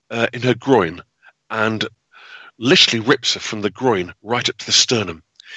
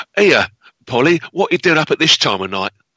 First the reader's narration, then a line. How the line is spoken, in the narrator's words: she said in her Cockney English accent, she said